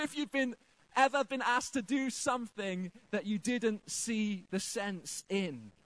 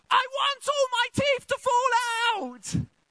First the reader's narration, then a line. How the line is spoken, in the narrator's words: she ran away from me screaming